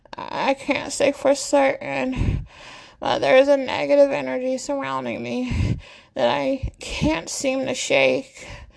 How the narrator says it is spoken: Annabelle admits with panting breaths

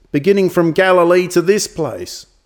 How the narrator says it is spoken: shouted the priest

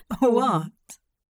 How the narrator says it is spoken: Hop chuckled the word into a pale cheek

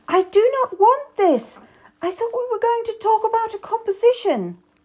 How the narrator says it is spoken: cried out

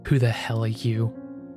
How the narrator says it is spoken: Crow snarled, suddenly awake

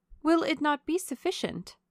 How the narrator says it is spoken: said Marianne eagerly

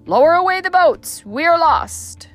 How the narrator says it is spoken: the voice of the captain was heard above the tumult, shouting

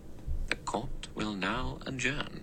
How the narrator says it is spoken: Philip Lombard murmured beneath his breath

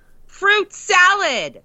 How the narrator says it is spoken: he yells

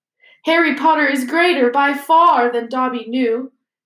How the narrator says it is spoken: he sobbed

